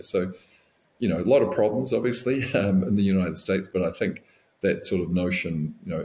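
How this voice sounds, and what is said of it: New Zealand accent. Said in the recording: “I'm assuming you still call New Zealand home. You've still got the accent”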